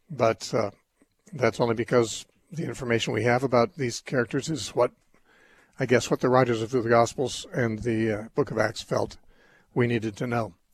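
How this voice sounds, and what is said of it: Strained, rough voice. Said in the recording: “my voice is on the edge here today”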